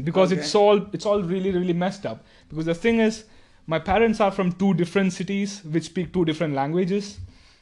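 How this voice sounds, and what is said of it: Indian English accent. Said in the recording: “Do you know that you have an Indian accent?”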